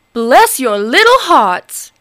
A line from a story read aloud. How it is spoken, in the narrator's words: he cried